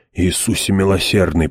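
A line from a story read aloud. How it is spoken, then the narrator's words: Moaning. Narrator (Russian): простонал Хойт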